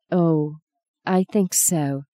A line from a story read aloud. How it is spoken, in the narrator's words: she said quietly